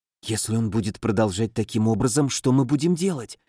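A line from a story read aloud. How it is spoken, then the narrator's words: Whispered. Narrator (Russian): шепнул Алан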